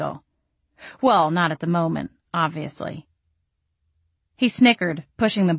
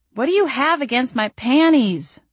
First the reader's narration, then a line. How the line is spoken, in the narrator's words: I moaned, mourning the loss of yet another pair